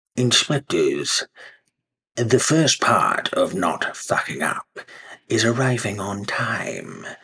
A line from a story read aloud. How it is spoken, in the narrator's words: the mayor cooed